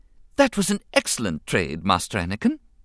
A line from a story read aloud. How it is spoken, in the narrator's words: C-3PO advised cheerfully